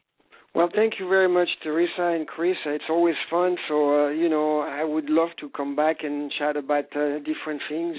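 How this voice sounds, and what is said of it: Speaker's own accent. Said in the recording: “As long as they understand my accent, I guess it's okay.”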